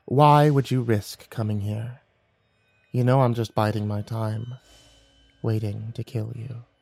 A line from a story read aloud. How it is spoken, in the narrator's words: she said softly